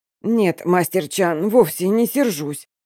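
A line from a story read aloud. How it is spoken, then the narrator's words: Hoarse reply. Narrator (Russian): хрипло отвечаю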